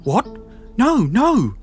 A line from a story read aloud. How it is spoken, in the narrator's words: Sarah quavered, having found her voice